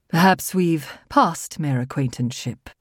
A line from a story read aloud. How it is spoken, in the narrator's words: he said dryly